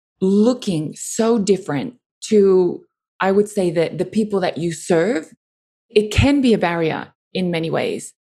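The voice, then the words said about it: Foreign accent in English. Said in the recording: “The fact that they hear my accent... foreign woman”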